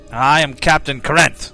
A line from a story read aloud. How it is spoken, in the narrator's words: replying in a curt voice